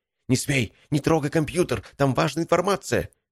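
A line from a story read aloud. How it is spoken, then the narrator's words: Yelled. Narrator (Russian): завопил Валерий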